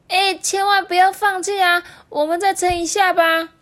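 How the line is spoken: Loud shout. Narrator (Chinese): 第三青第三只青蛙就大声喊说

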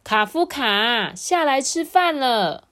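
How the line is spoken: Loud call. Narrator (Chinese): 妈妈也大声说

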